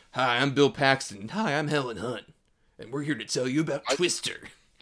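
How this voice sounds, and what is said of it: Bad Bill Paxton and Helen Hunt impressions. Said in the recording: “They have the same voice. ... Your impersonation are terrible.”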